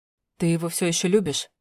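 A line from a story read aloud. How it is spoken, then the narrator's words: Hoarse pained question. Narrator (Russian): спросил севшим голосом, словно ему это было больно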